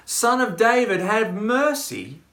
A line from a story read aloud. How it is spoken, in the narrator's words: The two blind men who just a few verses earlier in chapter 20 had cried out